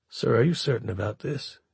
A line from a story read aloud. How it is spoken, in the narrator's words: asked quietly